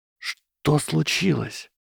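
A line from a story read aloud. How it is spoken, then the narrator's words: Whispered question. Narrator (Russian): шепотом спросила Беллатриса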